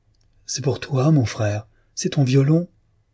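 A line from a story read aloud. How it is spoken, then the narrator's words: Uncontainable excited cry. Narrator (French): s'écria Victor, incapable de se contenir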